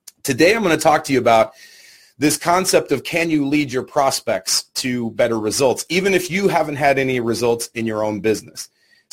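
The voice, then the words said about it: Raspy, worn-out voice. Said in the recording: “my voice is a little bit thrashed, so if I sound raspy,”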